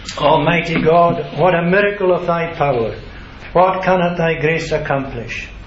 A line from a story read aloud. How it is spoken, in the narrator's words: no longer skeptical, the farmer looked towards heaven, exclaiming